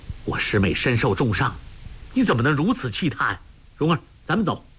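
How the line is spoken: Furious. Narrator (Chinese): 郭靖……不禁大怒，说道

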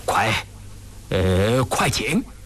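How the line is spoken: Excited trembling voice. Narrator (Chinese): 张廷玉激动的声音都发颤

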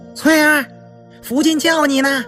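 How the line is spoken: Maid calling out. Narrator (Chinese): 一个大丫头……喊道

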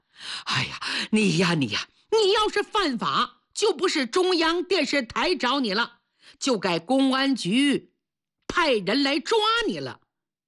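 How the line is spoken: Laughing. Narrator (Chinese): 队长一听这话扑刺笑了

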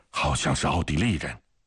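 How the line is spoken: Sudden low urgent call. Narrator (Chinese): 下士突然低声地喊道

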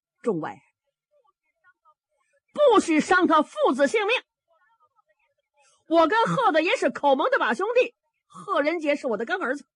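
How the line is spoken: Shouting. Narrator (Chinese): 小伯龙方天画喊上了

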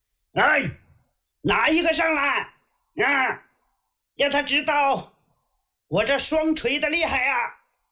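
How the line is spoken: Loud shout. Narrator (Chinese): 李元霸……到阵前高喊了一声

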